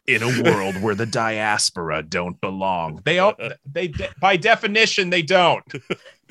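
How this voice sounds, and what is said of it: Dramatic movie trailer announcer voice. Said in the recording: “reciting lines from Mitra's thesis abstract in the movie announcer voice”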